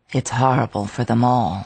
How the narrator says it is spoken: I murmured

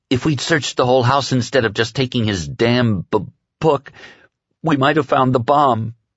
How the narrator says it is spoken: she said, and her voice began to choke and break

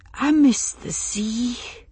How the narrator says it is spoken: she said, very softly, as though she was very tired

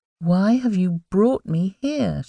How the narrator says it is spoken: she asked, trying once again to speak quietly and sound as calm as she could

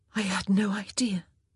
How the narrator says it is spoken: Daphne whispered, her every breath sliding hot and moist across her lips

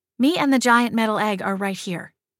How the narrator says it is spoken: Jillian muttered

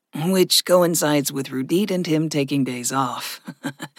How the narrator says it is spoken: Gregory chuckled

